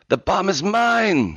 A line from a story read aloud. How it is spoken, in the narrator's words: she screamed